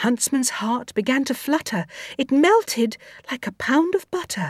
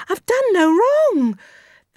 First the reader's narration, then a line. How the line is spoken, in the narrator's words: She cried again